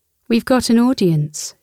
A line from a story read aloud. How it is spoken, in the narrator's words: she laughed